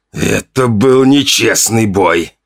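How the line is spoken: Hoarse rasp. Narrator (Russian): прохрипел он

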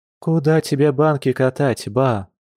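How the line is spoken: Tired question. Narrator (Russian): устало спросила Маша

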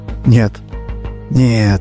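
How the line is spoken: Whisper. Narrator (Russian): прошептал Давид

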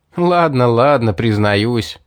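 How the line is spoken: Laughing. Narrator (Russian): рассмеялся я

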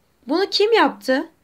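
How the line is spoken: Shouted. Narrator (Turkish): diye bağırdı

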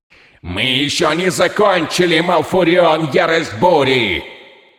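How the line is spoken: Final shout. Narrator (Russian): Удалось выкрикнуть напоследок

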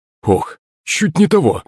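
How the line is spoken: Strained, effortful. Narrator (Russian): выдавил батя, поднимаясь на ноги

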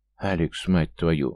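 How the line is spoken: Strained, forced out. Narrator (Russian): красный от напряжения, с трудом выдавил

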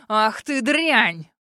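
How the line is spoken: Barking angry man. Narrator (Russian): Рявкнул мужик

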